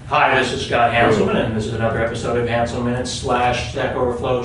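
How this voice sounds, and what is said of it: Radio announcer voice. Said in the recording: “I'm going to turn on my radio voice now.”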